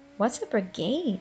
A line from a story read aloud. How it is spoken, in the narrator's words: she asked